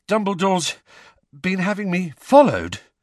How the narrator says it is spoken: Harry panted

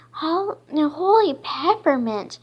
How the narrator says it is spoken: Dash exclaimed

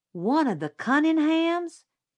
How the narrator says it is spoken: Jim yelped

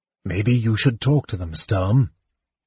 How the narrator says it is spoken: Tanis said softly

